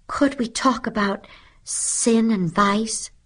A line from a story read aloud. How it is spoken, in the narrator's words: pleaded Lydia Lacey